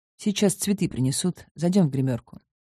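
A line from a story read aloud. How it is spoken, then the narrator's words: Plain. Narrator (Russian): ответил Август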